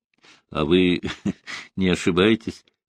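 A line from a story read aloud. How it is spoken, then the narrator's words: Laughing. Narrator (Russian): рассмеялся маршал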